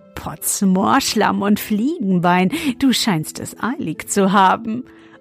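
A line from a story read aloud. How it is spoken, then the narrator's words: Laughing until choking. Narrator (German): und er lachte, bis er sich verschluckte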